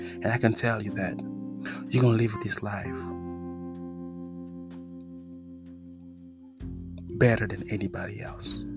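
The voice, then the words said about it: French accent in English. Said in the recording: “I'm sorry about my accent. You know, French guy have an accent”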